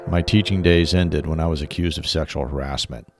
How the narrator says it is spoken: he said flatly

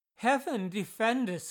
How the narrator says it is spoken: exclaimed

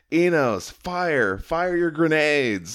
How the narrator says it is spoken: he yells at him

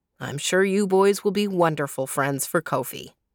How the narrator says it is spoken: he said

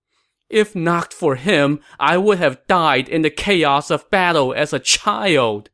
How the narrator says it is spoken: Liu Shan said as he wailed

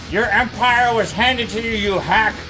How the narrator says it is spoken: he spews out a glut of salt water and screams up at Caligula

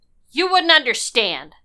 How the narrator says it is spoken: snapped

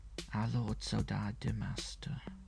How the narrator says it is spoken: whispered Henriet, who, pale and tearful

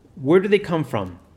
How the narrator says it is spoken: asked Monsignor Tresch

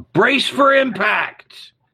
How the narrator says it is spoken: the captain screams out

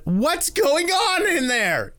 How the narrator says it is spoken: yelled Fat Will from outside

